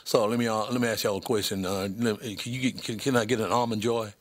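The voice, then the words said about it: Put-on Southern US accent. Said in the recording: “I went with the Southern accent because if you went with the honky Northern accent, you were out”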